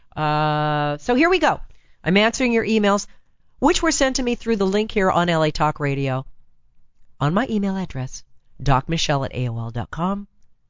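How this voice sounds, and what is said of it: Raspy, hoarse voice. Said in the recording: “raspy voice, got laryngitis ... and still kind of there”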